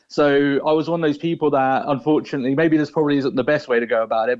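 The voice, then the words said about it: English accent, not Cork. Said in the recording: “That's not a Cork accent ... I'm originally from England”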